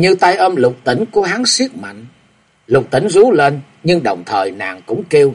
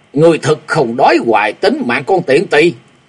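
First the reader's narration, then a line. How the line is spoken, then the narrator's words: Loud roar. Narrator (Vietnamese): Tên kim điện bí sứ gầm to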